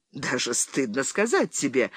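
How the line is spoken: Laughing. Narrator (Russian): рассмеялся Генри

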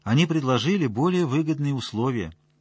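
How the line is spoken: Calm. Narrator (Russian): спокойно ответили

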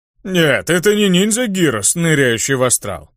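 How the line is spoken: Chuckling. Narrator (Russian): хохотнул голос

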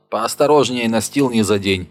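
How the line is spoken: Shouting again. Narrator (Russian): опять крикнул он

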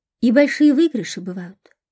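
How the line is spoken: Plain. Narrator (Russian): спросила она

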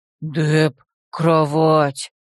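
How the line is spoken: Unsteady muttering. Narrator (Russian): Покачиваясь на лестнице, пробурчал Депп

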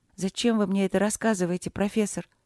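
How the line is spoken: Lifeless flat question. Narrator (Russian): безжизненным голосом осведомилась Алина

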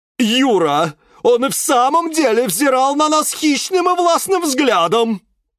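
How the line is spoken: Shouting. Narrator (Russian): закричал нарцисс Борис

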